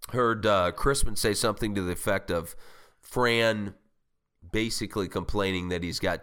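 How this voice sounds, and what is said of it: Sick, congested voice. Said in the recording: “apologize for my voice. I'm going through a cold, as you can tell.”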